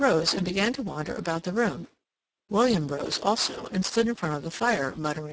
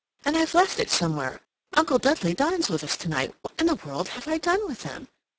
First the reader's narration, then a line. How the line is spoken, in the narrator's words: she exclaimed